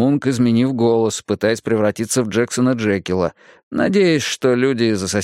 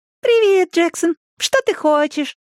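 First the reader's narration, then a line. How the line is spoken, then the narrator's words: Doll-like voice. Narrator (Russian): сказала Марион кукольным голосом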